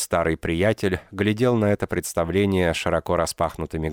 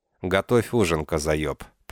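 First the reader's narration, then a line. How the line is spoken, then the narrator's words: Calm command. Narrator (Russian): приказал спокойно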